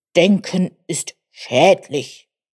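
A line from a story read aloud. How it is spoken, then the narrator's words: Grumbled. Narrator (German): brummte Bubalus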